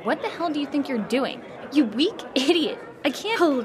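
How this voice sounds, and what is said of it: Loud, angry raised voice. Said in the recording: “lower your voice?”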